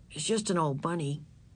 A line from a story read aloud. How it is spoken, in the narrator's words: said in a flat voice